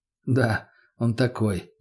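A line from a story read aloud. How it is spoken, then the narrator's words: Sighed. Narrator (Russian): вздохнул я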